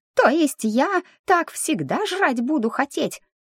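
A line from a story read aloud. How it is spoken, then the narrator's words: Shocked squeak. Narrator (Russian): потрясенно пискнул Мик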